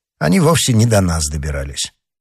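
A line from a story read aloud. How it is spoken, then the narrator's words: Calm. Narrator (Russian): спокойно обратился Д'Артаньян к Планше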